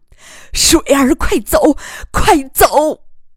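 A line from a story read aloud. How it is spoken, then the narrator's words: Sad, composed. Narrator (Chinese): 于乐水对丈夫凄然一笑，对杀手说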